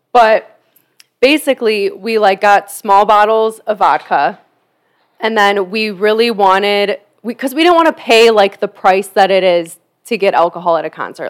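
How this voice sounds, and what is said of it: Raspy voice. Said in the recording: “my voice is so raspy ... it's starting to be allergy season”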